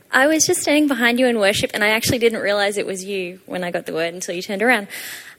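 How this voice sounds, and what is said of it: Australian accent. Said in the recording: “I'm from Australia, hence the weird accent.”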